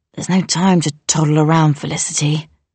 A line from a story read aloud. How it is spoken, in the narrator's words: he rasped